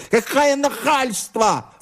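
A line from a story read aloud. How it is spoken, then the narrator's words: Indignant shriek. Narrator (Russian): завизжал он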